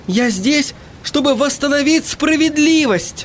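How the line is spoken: Shouting girl. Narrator (Russian): крикнула девушка

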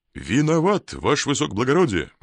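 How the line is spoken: Brisk soldier. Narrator (Russian): бодро сказал солдат

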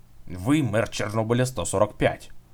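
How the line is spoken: Threatening tone. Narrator (Russian): угрожающим тоном заговорил толстячок

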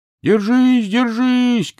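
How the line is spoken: Young whale shouting. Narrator (Russian): кричал китенок

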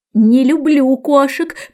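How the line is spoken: Shrill trembling mouse voice. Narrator (Russian): пронзительно дрожащим голосом воскликнула мышка

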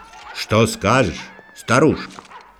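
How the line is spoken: Plain. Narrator (Russian): спросил король

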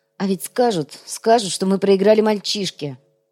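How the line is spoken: Mumbling. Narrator (Russian): бормочет Артем

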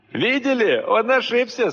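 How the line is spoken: Laughing. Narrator (Russian): смеялся этот несчастный

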